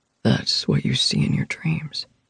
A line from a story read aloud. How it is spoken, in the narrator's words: Griffin whispered